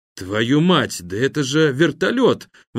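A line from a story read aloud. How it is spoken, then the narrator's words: Exclaiming. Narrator (Russian): воскликнул Жданов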